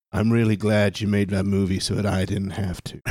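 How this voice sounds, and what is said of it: Imitates another person's voice. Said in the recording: “best Jack Nicholson impression ... It's not bad ... That's pretty good ... I've heard way worse”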